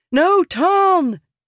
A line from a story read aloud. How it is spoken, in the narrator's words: Yasna yelled